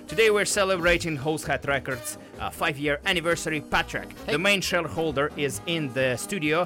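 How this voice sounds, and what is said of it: Non-native broken English accent. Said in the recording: “hosted with a broken English accent”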